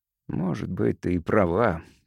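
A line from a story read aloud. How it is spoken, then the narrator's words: Father muttering. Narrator (Russian): пробормотал отец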